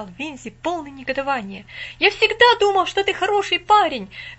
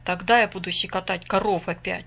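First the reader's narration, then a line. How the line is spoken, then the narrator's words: Gloomy statement. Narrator (Russian): мрачно заявил Расли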